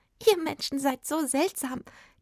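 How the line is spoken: Giggling fairy. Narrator (German): kicherte die Fee

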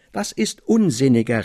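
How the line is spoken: Excited exclamation, jumping up. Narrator (German): rief ich vom Stuhle aufspringend

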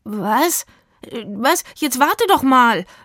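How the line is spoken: Stammering. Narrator (German): stammelte Rufus

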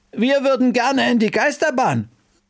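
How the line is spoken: Call after. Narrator (German): rief Bertha ihr hinterher

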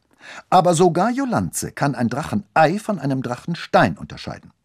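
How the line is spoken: Stern. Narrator (German): sagte sie streng

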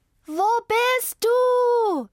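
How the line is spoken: Screamed. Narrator (German): schrie Zelda

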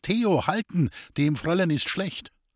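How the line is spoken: Calling out. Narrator (German): Sie rief

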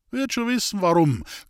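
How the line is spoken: Laughing voice from wall. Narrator (German): klang eine lachende Stimme von der Mauer

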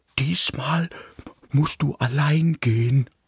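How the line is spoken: Said quietly. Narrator (German): sagte er leise

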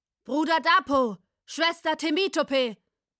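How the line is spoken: Calling out. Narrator (German): rief Layo

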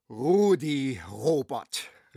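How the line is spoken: Enthusiastic exclamation. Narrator (German): rief begeistert aus

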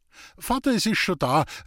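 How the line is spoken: Giggling cheerful call. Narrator (German): rief Julei und kicherte lustig

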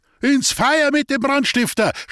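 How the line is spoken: Crowd shouting. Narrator (German): schrie alles

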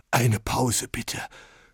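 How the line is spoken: Breathless panting. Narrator (German): keuchte Oberlehrer Greck schließlich

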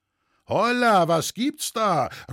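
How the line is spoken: Many voices shouting together. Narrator (German): rief es durcheinander

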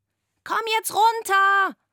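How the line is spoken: Shouting. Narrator (German): schrie Antonia

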